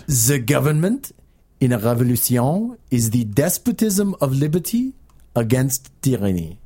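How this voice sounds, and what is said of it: Put-on comedic French accent. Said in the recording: “Last time for the funny French accent.”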